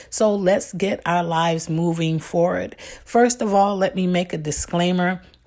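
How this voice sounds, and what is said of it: Slightly hoarse, rough voice. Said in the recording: “Forgive my voice. ... I am just recovering from a cold ... Just dealt with a little throat issues.”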